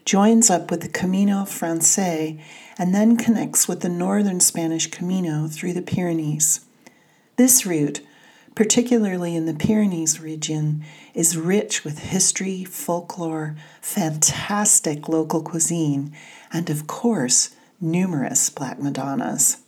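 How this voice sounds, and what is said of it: Californian American accent. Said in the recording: “please excuse my Californian accent”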